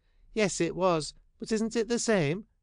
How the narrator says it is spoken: she timidly asked

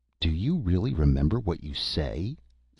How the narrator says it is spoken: sneered Mr

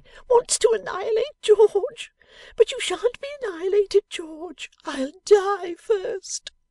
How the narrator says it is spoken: screamed the young lady

